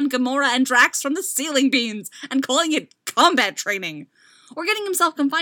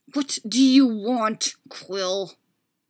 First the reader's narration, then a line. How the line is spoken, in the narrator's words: Rocket snarled, infuriated that he was being manipulated like this, but powerless to stop it